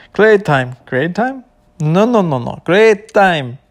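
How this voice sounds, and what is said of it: Put-on foreign accent. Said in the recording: “when I'm using an accent”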